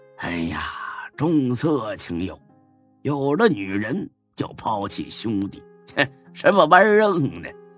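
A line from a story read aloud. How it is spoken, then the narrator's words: Laughing scold. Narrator (Chinese): 孙志笑骂一句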